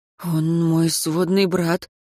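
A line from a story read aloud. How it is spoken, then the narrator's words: Breathless. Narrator (Russian): выдохнул Лучано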